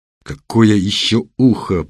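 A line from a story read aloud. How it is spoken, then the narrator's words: Through clenched teeth. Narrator (Russian): процедил Серый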